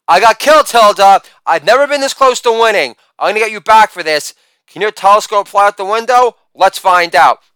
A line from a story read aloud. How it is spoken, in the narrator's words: freaks the F out as expected, yelling